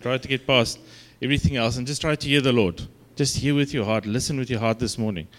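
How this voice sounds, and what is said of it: Afrikaans accent. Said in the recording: “my Afrikaans accent”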